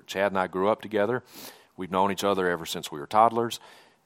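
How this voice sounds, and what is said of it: Mississippi Southern accent. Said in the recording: “You can probably tell from my accent, I'm not from around these parts. I grew up in Mississippi.”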